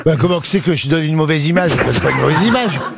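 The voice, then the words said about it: Put-on northern French ch'ti accent. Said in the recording (French): “c'est pas en prenant un accent régional que tu vas te faire des amis ... les ch'tis se plaignent ... On parle pas de comme ça.”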